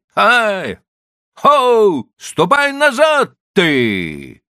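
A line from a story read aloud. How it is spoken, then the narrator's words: Shouting after someone. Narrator (Russian): кричал ему вслед Чихан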